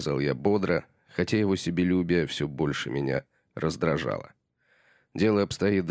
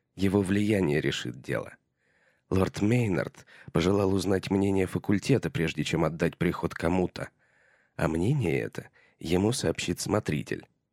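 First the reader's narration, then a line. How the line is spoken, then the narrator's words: Plain. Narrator (Russian): сказал Томас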